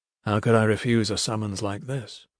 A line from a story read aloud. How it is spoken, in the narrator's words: he said softly